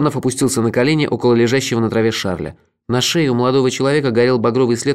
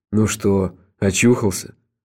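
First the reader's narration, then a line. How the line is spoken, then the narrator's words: Gentle question. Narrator (Russian): Ласково спросил он у Дебрезе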